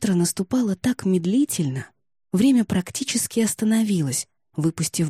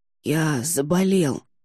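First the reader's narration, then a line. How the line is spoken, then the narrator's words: Hoarse, apologetic. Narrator (Russian): оправдываясь, прохрипел он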